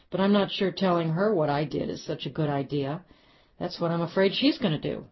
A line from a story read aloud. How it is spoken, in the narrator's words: Bill laughed